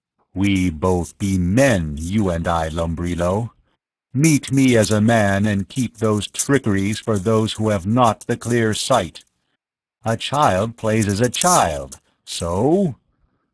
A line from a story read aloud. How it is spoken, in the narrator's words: Tao's voice came in a rumble